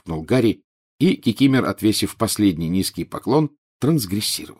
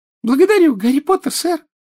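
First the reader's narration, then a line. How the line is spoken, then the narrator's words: Joyful squeak. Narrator (Russian): радостно пискнул Добби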